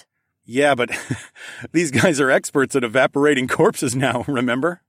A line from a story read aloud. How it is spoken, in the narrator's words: laughed